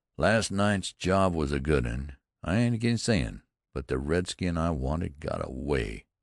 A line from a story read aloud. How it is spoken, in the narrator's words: Wetzel said gloomily